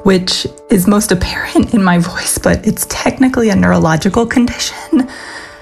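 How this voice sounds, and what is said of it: Whispery, hoarse voice cutting in and out. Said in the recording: “my voice is a little whispery and kind of hoarse and cuts in and out”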